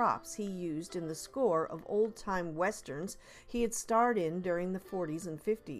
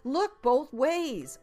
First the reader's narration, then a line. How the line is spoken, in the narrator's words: blurted